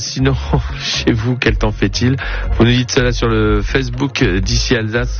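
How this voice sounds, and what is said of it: Put-on Belgian French accent. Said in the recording (French): “je prends l'accent belge”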